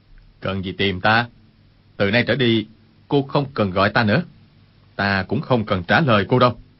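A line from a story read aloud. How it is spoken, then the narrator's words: Cold. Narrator (Vietnamese): Quách Tĩnh lạnh lùng nói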